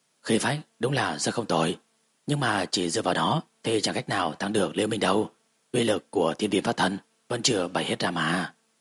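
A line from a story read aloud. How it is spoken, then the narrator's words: Soft smiling. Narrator (Vietnamese): Tâm Hồ tiên tử mỉm cười khẽ nói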